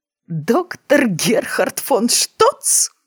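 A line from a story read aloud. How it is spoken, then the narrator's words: Groaning, stifling laughter. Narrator (Russian): простонала краснея от сдерживаемого хохота Дженни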